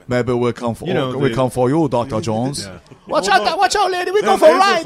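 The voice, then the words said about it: Put-on offensive Asian accent. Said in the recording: “your offensive Asian accent”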